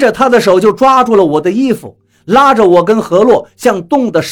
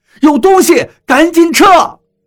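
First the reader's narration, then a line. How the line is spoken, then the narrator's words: Shout. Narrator (Chinese): 张广川叫了一声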